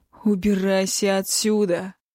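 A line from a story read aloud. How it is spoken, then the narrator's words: Through gritted teeth. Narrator (Russian): процедил Огненный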